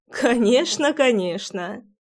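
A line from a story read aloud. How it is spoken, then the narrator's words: Laughing. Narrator (Russian): смеясь, закивала я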